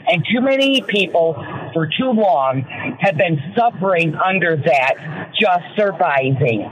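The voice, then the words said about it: Michigan American accent. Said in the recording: “I love your Michigander accent, girl. ... I just love your Michigander.”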